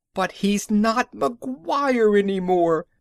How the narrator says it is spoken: she wailed

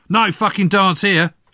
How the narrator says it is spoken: shouted the soldier

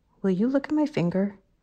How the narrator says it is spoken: he said quietly

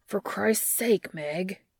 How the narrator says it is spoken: Dean growls

